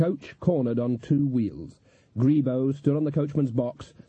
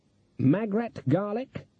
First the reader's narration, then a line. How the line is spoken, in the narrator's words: said Granny Weatherwax triumphantly